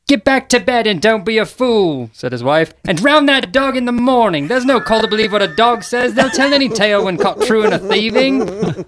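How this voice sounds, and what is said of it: Reads aloud in a put-on accent. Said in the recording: “the accent, bravo.”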